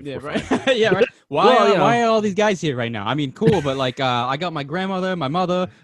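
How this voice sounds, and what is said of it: Boston accent. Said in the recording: “That whole sentence sounded super Boston. ... that's where the accent came through.”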